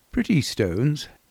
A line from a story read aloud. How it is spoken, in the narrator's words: he said, as cheerfully as he could